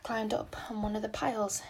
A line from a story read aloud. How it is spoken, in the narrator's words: explained Anne wearily